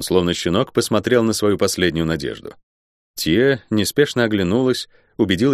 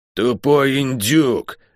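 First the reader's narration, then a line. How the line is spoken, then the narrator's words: Furious growl. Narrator (Russian): яростно прорычала она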